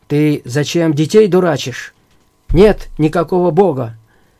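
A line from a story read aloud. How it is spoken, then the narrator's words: Angry shouting husband. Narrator (Russian): Если случалось мужу узнавать об этом, он гневно кричал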